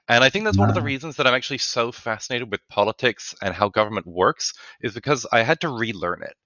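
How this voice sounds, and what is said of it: British-Australian accent. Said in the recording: “do you have an accent? Am I detecting an accent? ... So I'm British and Australian.”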